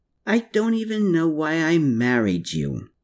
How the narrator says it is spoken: Exasperated by Hermann's arguments, Anna groaned

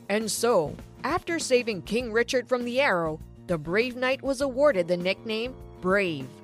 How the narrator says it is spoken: Dad said loudly

